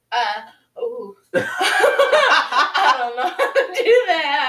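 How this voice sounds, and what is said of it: Usual voice. Nothing is said of it.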